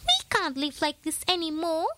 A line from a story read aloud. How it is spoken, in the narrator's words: squeaked the eldest mouse